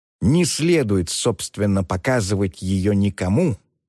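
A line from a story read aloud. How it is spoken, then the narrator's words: Plain. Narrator (Russian): сказал он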